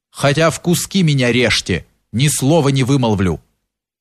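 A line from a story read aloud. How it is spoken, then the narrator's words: Firm voice. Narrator (Russian): прибавил твердым голосом Кирша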